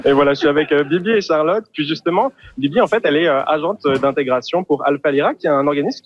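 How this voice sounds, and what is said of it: French accent from France. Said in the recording (French): “vous l'entendez à mon accent, moi je suis français”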